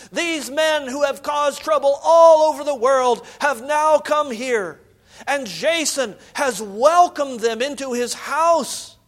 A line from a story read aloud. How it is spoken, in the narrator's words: shouting